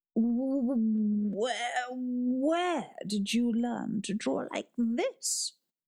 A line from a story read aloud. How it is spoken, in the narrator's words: He stammered